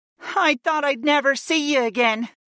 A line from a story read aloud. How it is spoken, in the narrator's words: Aaron whimpered